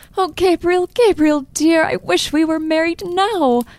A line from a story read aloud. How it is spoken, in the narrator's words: Evelyn cried in sudden distress